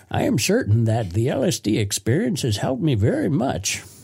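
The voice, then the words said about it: Put-on old man voice. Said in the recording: “I don't know a Vermont accent, so I'll just be an old man. ... that was a great impression.”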